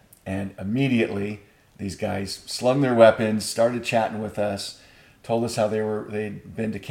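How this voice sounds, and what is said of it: Usual voice. Nothing is said of it.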